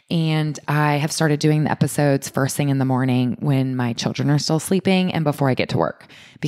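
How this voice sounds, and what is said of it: Quiet, subdued, low-energy voice. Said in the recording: “I am naturally talking more quiet and I sound not as vibrant”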